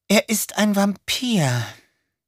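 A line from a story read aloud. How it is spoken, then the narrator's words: Sighing. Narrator (German): seufzte sie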